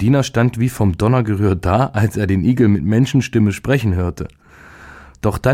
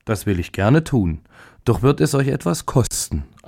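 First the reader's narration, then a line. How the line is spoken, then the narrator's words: Plain. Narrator (German): antwortete der Igel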